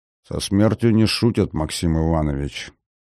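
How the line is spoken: Quiet older soldier. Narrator (Russian): тихо произнес солдат уже в возрасте

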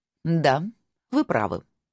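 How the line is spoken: Cold reply. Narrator (Russian): холодно ответила Аббатиса

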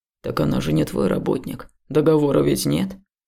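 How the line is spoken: Skeptical hmph. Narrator (Russian): Хмыкнул Илья

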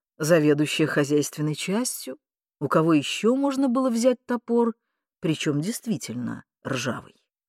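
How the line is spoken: Calm explanation. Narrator (Russian): Андрюша спокойно пояснял

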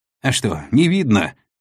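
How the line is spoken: Snapping back. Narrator (Russian): огрызнулся пойманный дикарь

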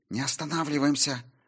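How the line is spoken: Hissed. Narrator (Russian): прошипела Сильвия

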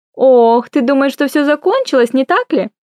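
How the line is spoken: Cheerful question. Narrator (Russian): Весело спросила Аврора

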